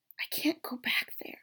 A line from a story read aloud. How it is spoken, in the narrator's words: his father whispered